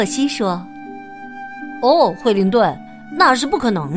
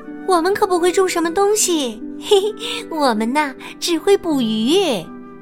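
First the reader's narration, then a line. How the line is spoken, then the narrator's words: Laughing. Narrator (Chinese): 美宝笑着说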